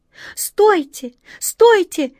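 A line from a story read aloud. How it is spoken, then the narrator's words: Desperate squirrel's scream. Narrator (Russian): отчаянно закричала белка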